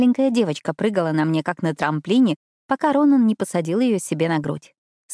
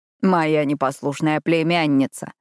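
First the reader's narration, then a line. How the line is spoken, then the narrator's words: Chuckle. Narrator (Russian): хохотнул Ронан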